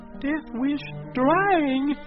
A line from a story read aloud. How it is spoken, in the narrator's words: he breathed